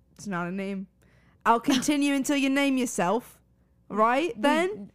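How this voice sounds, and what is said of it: Put-on British accent. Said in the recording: “your British accent”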